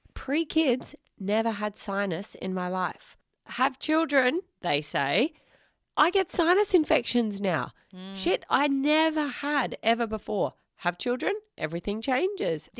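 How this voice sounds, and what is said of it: Voice a little off, cold-like. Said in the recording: “you got a cold. Now you can tell that my voice is a little bit off ... just another sinus infection”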